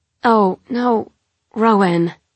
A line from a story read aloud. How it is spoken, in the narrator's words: Carnelian groans as he sees what I'm doing